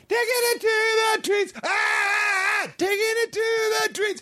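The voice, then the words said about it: Mocking high falsetto singing. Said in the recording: “It's the falsetto, Cash. ... It's the falsetto. ... I feel like the way I sing, it's a little more beautiful than that.”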